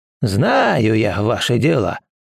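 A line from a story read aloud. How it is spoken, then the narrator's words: Displeased old man's grumble. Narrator (Russian): недовольно пробурчал старик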